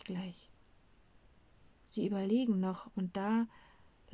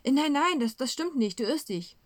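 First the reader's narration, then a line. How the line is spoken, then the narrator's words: Calling out. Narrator (German): ruft Petrus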